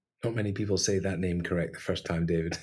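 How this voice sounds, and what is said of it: Scottish accent. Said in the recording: “nice to hear Scottish. Another Scottish accent on the podcast ... my accent is going to go way more Scottish”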